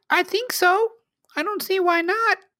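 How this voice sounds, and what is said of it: Attempted little girl voice. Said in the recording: “my attempt at a little girl voice.”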